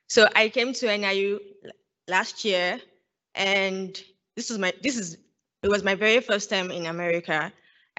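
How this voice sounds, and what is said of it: Nigerian accent. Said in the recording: “if you cannot tell by my accent already, I'm Nigerian”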